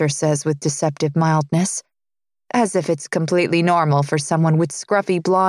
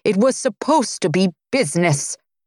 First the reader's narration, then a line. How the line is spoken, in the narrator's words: my father cried